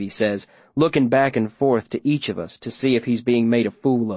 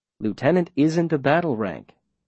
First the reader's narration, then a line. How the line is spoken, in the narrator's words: the mayor says smoothly